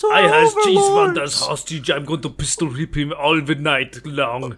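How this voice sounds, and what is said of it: Strange put-on German-sounding accent. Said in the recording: “I have to do some strange accent as well, because every brainwashing has to have accent like this. ... you German man”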